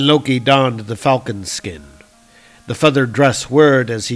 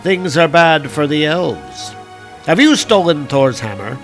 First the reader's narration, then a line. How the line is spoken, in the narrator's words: Thrym laughed, and the sound was like the chuckle of broken ice